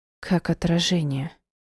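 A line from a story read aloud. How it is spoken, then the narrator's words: Quiet. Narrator (Russian): сказала тихо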